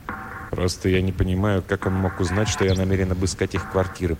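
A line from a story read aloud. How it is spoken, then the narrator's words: Muttering. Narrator (Russian): пробормотал Флендри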